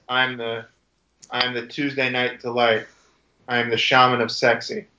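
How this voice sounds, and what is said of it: Charisma-free John Morrison impression. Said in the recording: “if I spoke without any charisma, it could be John Morrison ... Do you believe I was John Morrison just there?”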